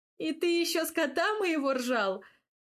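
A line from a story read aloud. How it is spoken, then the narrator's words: Laughing again. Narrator (Russian): Вновь начала смеяться я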